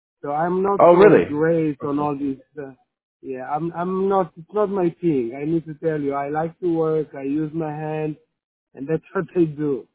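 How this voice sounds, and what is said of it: Israeli accent. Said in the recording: “I'm not American. You can hear my accent. I'm actually Israeli.”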